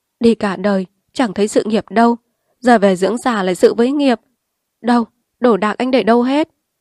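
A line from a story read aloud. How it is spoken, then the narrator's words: Laughing through tears. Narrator (Vietnamese): Liền lau nước mắt chợt bật cười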